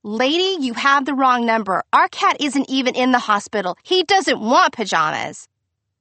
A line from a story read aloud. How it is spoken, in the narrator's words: Victor woke himself up yelling